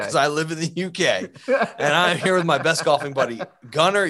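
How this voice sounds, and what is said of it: British accent. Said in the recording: “You can tell because I have a British accent.”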